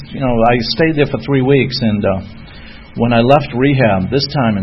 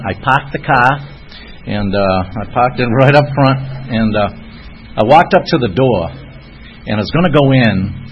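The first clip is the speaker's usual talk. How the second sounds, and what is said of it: Boston accent. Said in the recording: “Ready for the Boston accent?”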